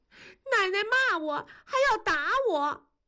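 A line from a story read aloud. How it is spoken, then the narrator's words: Crying. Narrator (Chinese): 燕妮哭着说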